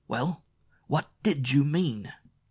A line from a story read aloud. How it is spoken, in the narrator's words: His voice could have split an iceberg in two, though it wasn't even loud enough to carry into the hall beyond the office